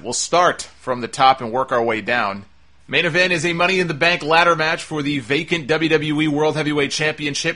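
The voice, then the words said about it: Boston accent. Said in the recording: “I'm already talking with my Boston accent.”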